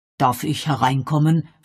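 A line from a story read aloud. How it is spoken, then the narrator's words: Plain question. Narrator (German): fragte Canonicus Pennyfather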